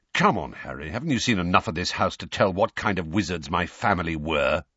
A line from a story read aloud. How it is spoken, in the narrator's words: said Sirius testily